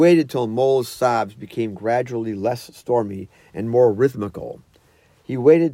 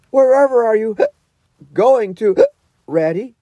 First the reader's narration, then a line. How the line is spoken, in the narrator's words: cried the tearful Mole, looking up in alarm